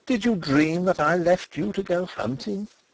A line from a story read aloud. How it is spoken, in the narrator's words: I cried, forgetting everything but her